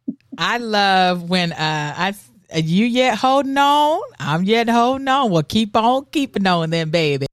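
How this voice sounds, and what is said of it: Put-on Southern accent. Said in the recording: “you can do the Southern accent way better than I can”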